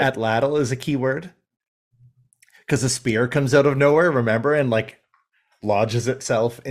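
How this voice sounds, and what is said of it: Usual voice. Nothing is said of it.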